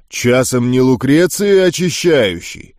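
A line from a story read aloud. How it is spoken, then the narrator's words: Deep bass voice. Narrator (Russian): Пробасил он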